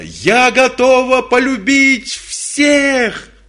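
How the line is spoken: Shouting. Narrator (Russian): она закричала

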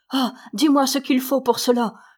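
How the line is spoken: Orphan girl exclaiming. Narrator (French): s'écria l'orpheline

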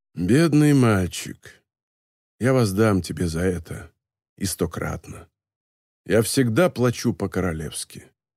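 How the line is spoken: Quiet. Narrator (Russian): тихонько произнес

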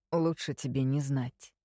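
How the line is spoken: Gloomy. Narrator (Russian): мрачно ответила темнота

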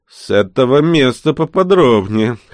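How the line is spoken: Wry snort. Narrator (Russian): хмыкнул я

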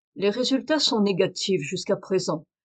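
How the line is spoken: Plain. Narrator (French): répondit mon ami

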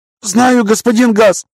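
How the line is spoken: Strangled squeak. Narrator (Russian): сдавленно пропищал тот

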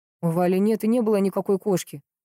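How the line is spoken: Angry. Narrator (Russian): сердито проговорил Данила

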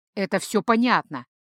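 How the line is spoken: Irritated. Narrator (Russian): раздраженно мотнул головой Гархаэт

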